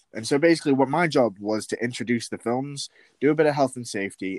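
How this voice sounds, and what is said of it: West Yorkshire English accent. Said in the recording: “I recognise that accent... West Yorkshire”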